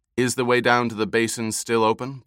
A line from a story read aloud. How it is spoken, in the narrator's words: Paul asked